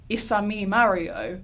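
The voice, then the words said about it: Stereotypical Italian accent, badly done. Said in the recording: “slightly a stereotypical Italian accent? ... That's pretty bad.”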